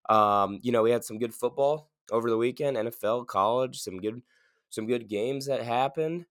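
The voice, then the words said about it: Sick, cold-affected voice. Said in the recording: “I'm a little sick, if you can't tell by my voice. I picked up a cold.”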